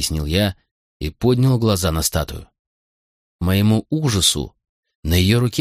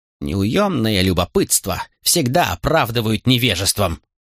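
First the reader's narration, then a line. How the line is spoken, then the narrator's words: Sharp bark. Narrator (Russian): рявкнула Кетл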